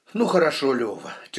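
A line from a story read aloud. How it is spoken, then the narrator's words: Heavy sigh. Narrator (Russian): тяжело вздохнул генерал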